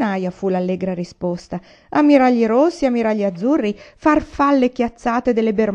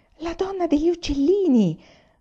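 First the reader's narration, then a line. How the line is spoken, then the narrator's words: Whispered. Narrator (Italian): sussurrò Jane a Michael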